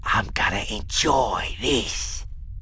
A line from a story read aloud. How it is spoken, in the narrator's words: he whispered in Han's face